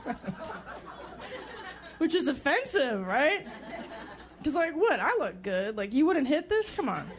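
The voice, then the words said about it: Russian accent like Boris Badenov. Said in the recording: “her accent, it's very Boris Badenov-like ... He was the evil Soviet Union Russian.”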